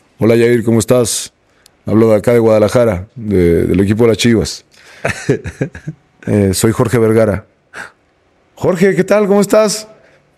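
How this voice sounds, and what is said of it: Imitates another person's voice. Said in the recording (Spanish): “A ver si puedo hacer la voz.”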